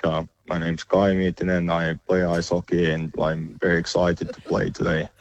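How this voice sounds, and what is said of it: Put-on robotic monotone Finnish accent. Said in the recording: “the Finnish accent is famously pretty robotic and monotone”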